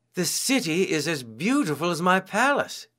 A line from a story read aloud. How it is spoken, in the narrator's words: exclaimed